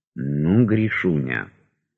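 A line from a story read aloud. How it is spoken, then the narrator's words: Whispered. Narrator (Russian): шепнул Восторгов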